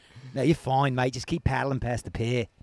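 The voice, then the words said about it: Put-on Australian accent. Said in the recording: “doing an Australian accent”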